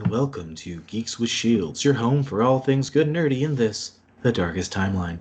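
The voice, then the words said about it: Smooth, mellow radio-announcer voice. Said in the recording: “that voice is still going to creep me out a little bit ... my smooth jazz voice ... my NPR voice”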